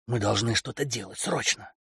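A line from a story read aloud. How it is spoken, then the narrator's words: Nervous whisper. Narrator (Russian): Каролина нервно расхаживала прошептала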